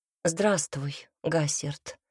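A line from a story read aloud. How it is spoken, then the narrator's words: Quiet reply. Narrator (Russian): ответила она негромко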